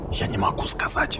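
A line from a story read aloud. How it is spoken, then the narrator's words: Trembling whisper. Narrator (Russian): прошептал я, не в силах сдержать дрожи в голосе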